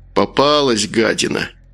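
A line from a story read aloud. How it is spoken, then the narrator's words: Grumbling. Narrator (Russian): проворчал Макар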